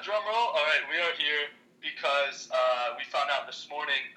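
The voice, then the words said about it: Slightly raspy voice. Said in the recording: “that little raspy voice”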